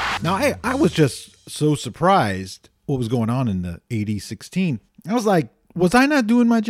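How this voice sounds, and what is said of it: Usual voice. Nothing is said of it.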